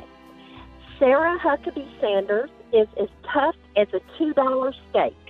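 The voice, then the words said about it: Sweet Southern drawl. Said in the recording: “Southern accent ... real sweet Southern drawl”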